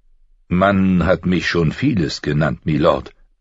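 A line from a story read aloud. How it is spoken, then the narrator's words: Plain. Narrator (German): sagte er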